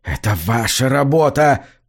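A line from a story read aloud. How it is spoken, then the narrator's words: Hoarse wheeze. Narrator (Russian): прохрипел он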